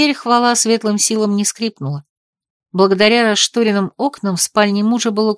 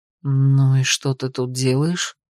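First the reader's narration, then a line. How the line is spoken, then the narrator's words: Whispered question. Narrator (Russian): шепотом вопросил я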